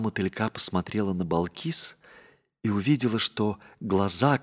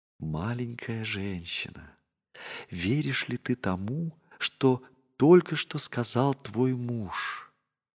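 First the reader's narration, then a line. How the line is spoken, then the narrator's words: Quiet. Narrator (Russian): Балкис тихо сказала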